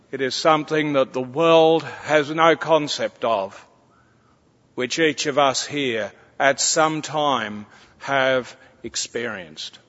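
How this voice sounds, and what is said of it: Strong, hard-to-understand accent. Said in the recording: “some are having difficulties understanding my accent.”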